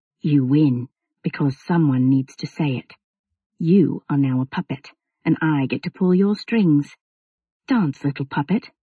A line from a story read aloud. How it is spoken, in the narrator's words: he whispered just as softly